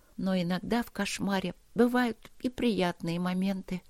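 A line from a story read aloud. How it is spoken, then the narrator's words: Blissful whisper. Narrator (Russian): прошептала она млея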